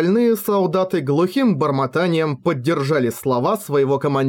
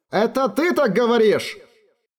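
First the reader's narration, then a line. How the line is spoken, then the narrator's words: Warrior shouting back. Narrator (Russian): прокричал в ответ один из воинов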